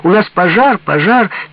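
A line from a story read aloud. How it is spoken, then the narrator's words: Granddaughter's cheerful shout. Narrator (Russian): Внучка Ирочка закричала весело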